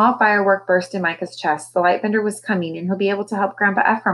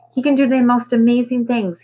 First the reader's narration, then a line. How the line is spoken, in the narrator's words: told excitedly